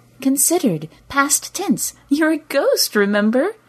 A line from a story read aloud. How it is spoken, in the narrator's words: She giggled now